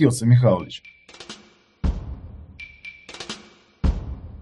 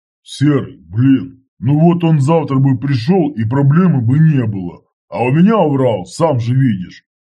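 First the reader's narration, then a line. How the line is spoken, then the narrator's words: Booming bass voice. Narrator (Russian): прогудел басом Федор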